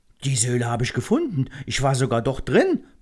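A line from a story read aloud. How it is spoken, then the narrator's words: Excited chattering interruption. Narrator (German): plappert Lachus aufgeregt dazwischen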